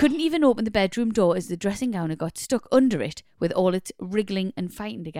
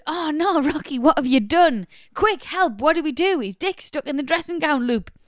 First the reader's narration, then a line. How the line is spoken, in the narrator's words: My husband shouted